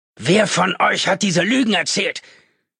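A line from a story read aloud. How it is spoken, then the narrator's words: Shouted into room. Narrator (German): schrie irgendwo in den Raum hinein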